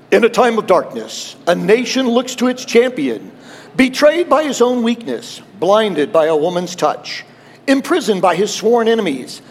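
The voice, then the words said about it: Dramatic movie-trailer radio voice. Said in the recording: “Get my best radio voice here.”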